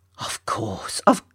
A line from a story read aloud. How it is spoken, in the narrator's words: Mama murmuring